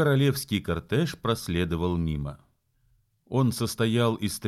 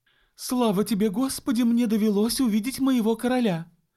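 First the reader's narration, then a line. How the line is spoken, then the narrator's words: Exclaiming. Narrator (Russian): воскликнула миссис Гарланд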